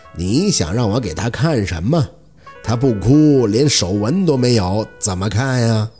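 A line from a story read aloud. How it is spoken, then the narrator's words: Slow, smiling. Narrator (Chinese): 那男人还是笑，缓缓地张口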